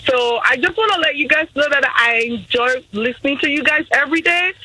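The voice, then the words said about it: Speaks with a noticeable accent. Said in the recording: “I love your accent”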